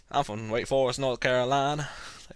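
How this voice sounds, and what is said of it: Fake Southern US accent. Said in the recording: “my southern instincts kick in ... Where the hell did that accent come from? ... Why am I talking like this? ... Fake southern accents.”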